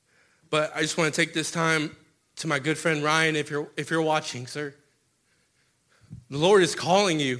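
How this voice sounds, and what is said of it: Emotional, choked-up speech. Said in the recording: “Sorry if I get emotional.”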